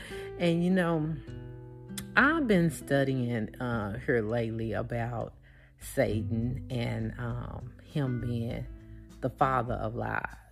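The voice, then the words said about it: Country Southern US accent. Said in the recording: “you need to work on this accent of yours. You need to work on the way that you sound. You talk country”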